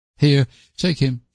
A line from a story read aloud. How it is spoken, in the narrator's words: she said hastily to Phil